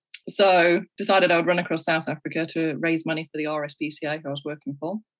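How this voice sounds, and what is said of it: English Midlands accent. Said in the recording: “where's your accent from? ... From the UK, yeah. English. ... Derby. ... It's in the Midlands.”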